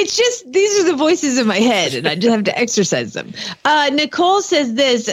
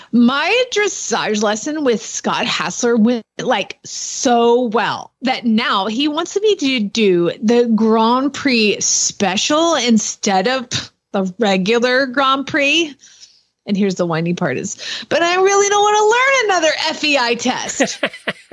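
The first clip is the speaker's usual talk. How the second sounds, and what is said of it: Valley Girl style voice. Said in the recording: “Your DQ voice sounds a lot like a Valley Girl voice.”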